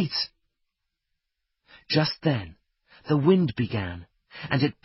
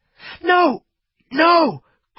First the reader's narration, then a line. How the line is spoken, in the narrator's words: cried Fritz